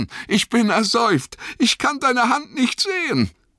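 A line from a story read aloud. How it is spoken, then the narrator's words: Panted. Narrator (German): keuchte Sam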